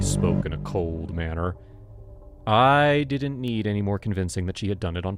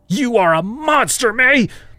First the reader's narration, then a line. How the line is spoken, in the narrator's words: screamed at her